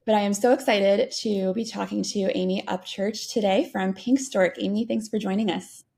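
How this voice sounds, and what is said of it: Slightly hoarse voice. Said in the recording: “joining you with a little bit of a hoarse voice”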